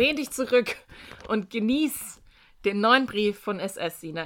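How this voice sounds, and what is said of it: Usual voice. Nothing is said of it.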